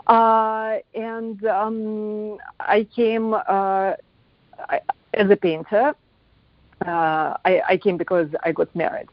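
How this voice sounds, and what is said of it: Russian accent in English. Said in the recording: “thing in Russia ... I came to America in 93 ... I think accent is something you never lose”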